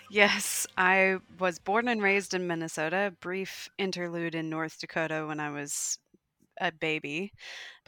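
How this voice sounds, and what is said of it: American Minnesota accent. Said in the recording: “your accent is pure Minnesota ... my very American accent”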